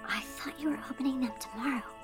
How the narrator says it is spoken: whispered

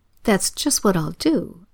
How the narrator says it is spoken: exclaimed Bert

